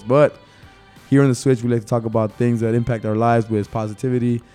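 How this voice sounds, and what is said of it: Slightly hoarse voice. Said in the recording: “sorry for my voice. My voice is a little bit hoarse”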